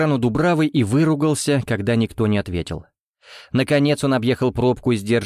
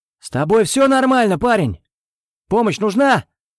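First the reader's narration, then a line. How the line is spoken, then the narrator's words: Bearded man shouting outside. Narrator (Russian): прокричал бородатый мужчина за окном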